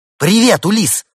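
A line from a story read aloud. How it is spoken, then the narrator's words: Shouted in chorus. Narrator (Russian): хором прокричали они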